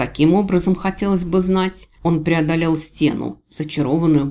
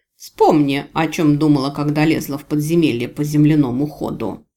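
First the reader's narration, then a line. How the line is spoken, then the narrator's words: Angry tongue click. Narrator (Russian): Я зло цыкнула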